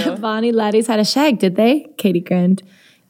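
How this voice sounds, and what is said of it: Reading a line in put-on accent. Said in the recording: “You can't avoid this with an accent.”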